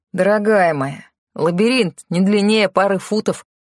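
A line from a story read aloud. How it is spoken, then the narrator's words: Laughing. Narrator (Russian): посмеялся Тео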